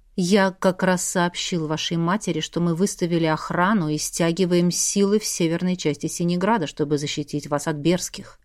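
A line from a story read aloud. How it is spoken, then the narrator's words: Almost tender. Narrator (Russian): почти ласково проговорил Александр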